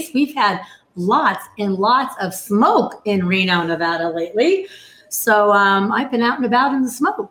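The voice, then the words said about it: Hoarse voice. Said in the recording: “Excuse my hoarse voice. ... my throat is not too happy about that”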